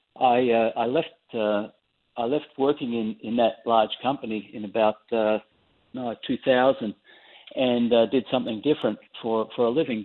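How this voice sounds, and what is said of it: Australian accent. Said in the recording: “people will probably tell from the accent, you're Australian and you grew up there”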